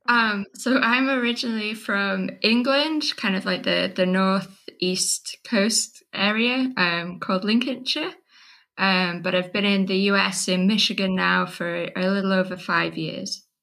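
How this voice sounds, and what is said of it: English accent. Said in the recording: “where is your lovely accent from?”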